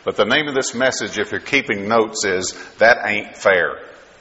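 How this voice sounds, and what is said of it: Kentucky and Texas accent. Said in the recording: “I am from from Texas now, but originally from Kentucky ... just enjoy the accent”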